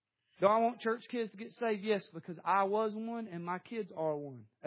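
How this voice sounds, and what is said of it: Southern American accent. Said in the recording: “I'm talking Southern now”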